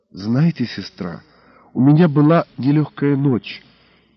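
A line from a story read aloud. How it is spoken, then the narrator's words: Quiet, confiding. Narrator (Russian): тихо и очень доверительно сообщила я рясоносной жандармессе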